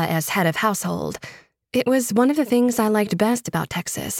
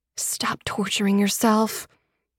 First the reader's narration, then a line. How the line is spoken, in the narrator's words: I muttered